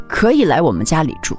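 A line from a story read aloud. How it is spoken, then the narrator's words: Sighing. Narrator (Chinese): 丈夫叹了一口气，说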